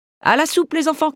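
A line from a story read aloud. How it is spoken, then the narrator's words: Shouts. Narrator (French): crie Marthe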